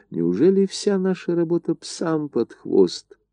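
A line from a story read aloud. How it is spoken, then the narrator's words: Close whisper in ear. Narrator (Russian): Горчаков, нагнувшись к уху барона Жомини, шепнул ему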